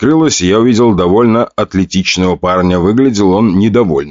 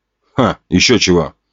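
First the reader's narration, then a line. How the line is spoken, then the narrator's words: Scoffing snort. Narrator (Russian): хмыкнул тот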